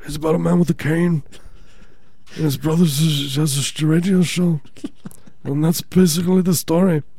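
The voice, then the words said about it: Imitates another person's voice. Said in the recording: “That's my Lemmy impersonation... It's like you were channeling his ghost.”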